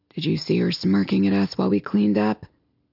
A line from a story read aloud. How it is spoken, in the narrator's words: He grunts to Smith